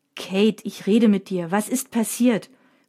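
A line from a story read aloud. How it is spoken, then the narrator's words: Angry repeated question. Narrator (German): fragt Mina erneut, diesmal ziemlich wütend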